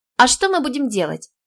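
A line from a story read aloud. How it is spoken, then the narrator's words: Girl's timid babble. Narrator (Russian): пролепетала девочка-булочка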